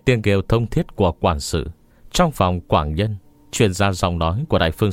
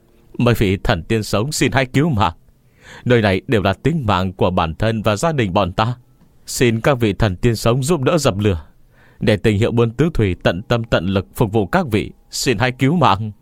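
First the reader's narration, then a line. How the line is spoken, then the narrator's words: Loud shouting. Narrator (Vietnamese): Ông ta hét lớn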